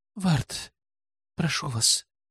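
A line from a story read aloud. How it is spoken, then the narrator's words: Convulsive breathless gasp. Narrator (Russian): судорожно выдохнула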